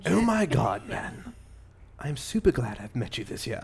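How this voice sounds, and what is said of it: Put-on British accent. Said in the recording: “I'm doing it with a British accent”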